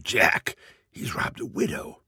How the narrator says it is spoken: In their gamesome but still serious way, one whispers to the other

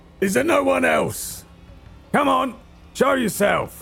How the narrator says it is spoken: I shout

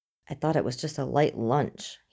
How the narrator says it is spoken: he asks Scully through gritted teeth

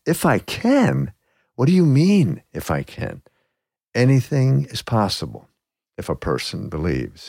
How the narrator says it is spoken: he says

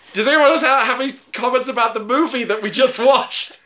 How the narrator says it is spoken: He said desperately

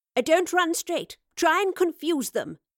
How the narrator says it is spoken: she cried

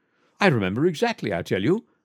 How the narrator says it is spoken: cried the Duke excitedly

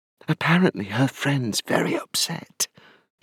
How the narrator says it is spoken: she whispered

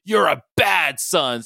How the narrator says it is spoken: Sabretooth screamed

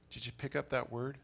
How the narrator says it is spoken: They muttered

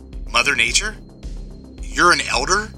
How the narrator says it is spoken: I replied

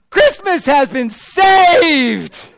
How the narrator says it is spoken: Thomas screams out

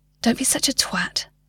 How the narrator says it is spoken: whispered to himself

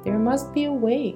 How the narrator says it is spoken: cried Fifi

